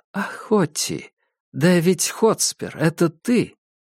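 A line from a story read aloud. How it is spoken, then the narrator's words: Whisper. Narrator (Russian): ты прошептала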